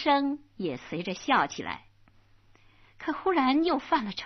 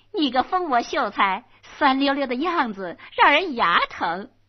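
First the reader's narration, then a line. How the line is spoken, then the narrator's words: Giggling, teasing. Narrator (Chinese): 红娘扑哧一声笑了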